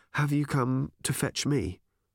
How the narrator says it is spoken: she asked calmly

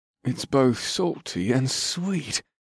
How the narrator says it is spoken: the dark-skinned man gasped

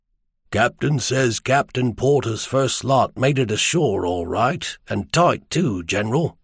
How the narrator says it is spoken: the Chisomian coxswain said softly

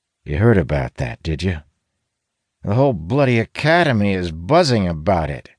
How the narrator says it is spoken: he replies bitterly

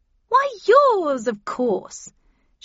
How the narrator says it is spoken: She answered happily

